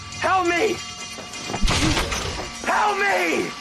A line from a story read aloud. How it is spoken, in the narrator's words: yelled